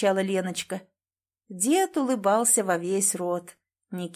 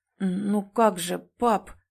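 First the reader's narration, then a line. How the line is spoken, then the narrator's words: Stammering. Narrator (Russian): запинаясь, проговорил Никита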